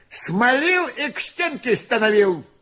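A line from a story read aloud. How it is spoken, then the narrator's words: Angry. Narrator (Russian): тоже зло сказал Моня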